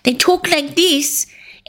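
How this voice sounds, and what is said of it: Pinched, nasal New Zealand accent imitation. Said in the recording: “New Zealand accent ... their nose is like, they kind of talk like this ... Everything's really pinched”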